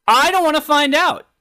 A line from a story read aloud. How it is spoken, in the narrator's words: I shouted at my electric toothbrush